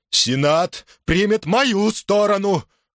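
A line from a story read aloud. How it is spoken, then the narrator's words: Shout, voice breaking. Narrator (Russian): крикнул пес Суллы, но голос его сорвался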